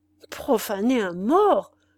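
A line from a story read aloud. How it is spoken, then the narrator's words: Old man's trembling voice. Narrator (French): répéta le vieillard d'une voix tremblante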